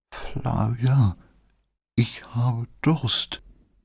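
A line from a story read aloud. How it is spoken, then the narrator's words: Whispering. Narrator (German): flüsterte Brad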